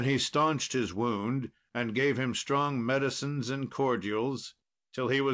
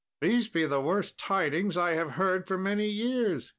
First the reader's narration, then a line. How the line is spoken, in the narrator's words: cried out the king